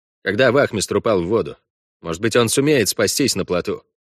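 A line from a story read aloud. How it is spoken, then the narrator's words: Even voice. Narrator (Russian): ровным голосом сказал Иланд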